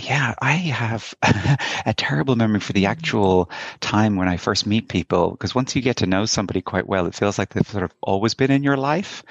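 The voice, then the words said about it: Irish Dublin accent. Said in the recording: “with that accent, you're an Irishman ... I am indeed, a proud Dubliner, proud Northsider.”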